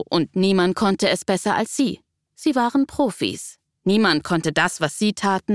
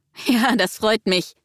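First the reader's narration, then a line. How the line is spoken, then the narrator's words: Laughing into phone. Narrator (German): lachte der Mann in sein Handy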